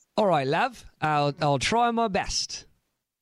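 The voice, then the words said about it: Put-on British London accent. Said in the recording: “answer your questions in a British accent ... you sound like you're on the tube ... You sound like you're from London.”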